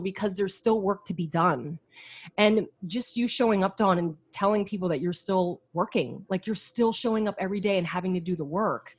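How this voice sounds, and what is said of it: Emotional, choked-up voice. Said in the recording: “I'm still getting emotional over this shit... I'm still getting emotional”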